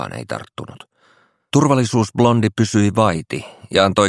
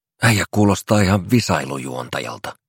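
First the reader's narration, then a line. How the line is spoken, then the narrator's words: Man grunting. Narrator (Finnish): murahti Timin edessä istuva mies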